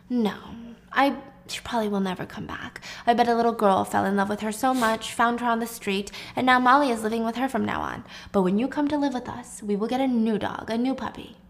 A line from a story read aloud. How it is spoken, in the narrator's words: Jack gently tries to tell her